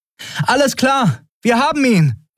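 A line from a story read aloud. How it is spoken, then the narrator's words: Calling across distance. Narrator (German): rief Endriel dem wartenden Schiff zu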